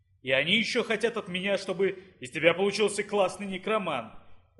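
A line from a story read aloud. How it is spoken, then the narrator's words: Furious growl. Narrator (Russian): рычал Дейнур в ярости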